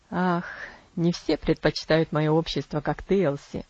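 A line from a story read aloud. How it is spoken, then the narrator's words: Laughing. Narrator (Russian): Засмеялся он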